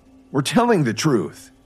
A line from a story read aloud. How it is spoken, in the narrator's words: the fourth employee blurted out